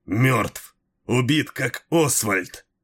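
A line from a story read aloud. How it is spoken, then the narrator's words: Breathless strained. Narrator (Russian): задыхаясь, выдавил Малхион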